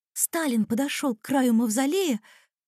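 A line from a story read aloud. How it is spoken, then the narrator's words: Excited speech. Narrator (Russian): взволнованно говорит Анюта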